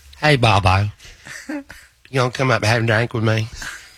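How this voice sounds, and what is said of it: Imitates another person's voice. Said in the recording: “can you tell impersonate her a little bit”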